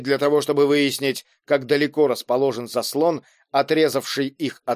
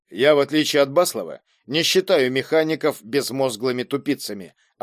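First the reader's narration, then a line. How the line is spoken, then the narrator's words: Plain. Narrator (Russian): ответил он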